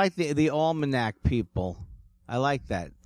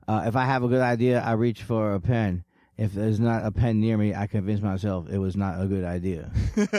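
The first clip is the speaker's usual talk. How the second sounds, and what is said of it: Mitch Hedberg impression. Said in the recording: “I love that Mitch Hedberg joke ... that is actually me trying to do an impression, but I didn't sell it”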